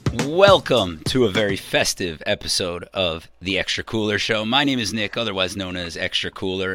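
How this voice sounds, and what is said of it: Hoarse, weakened voice. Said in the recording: “my lack there of voice ... you didn't have your show voice going ... your Luna Ajace”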